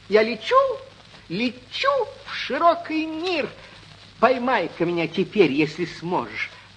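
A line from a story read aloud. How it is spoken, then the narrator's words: Tiny squeaky voice. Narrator (Russian): пискнула горошинка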